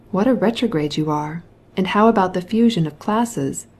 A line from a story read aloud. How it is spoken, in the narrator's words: said Oblonsky